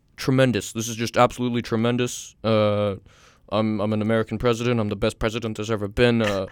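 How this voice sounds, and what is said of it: Imitates another person's voice. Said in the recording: “Can you do a Trump? I'm really bad at a Trump impression. ... Let me try and channel him.”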